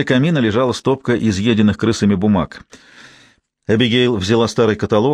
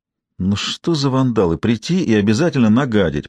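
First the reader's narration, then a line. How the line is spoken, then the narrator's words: Grumbled. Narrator (Russian): проворчала она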